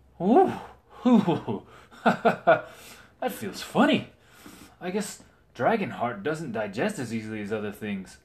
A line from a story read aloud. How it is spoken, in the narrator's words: Sir Aegon said with a giggle